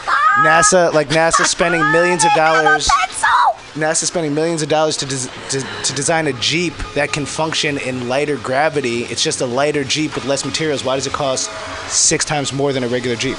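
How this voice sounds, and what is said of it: Scottish accent. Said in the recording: “I love your accent. Scottish.”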